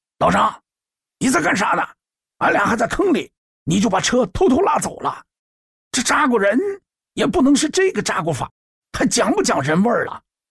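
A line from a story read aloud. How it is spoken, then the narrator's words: Loud, suppressed anger. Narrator (Chinese): 刘新建强按心中的愤怒，大声质问道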